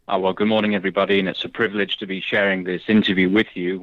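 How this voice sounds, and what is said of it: Slight English accent. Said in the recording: “You have a slight accent. ... I was raised in the United Kingdom, in England”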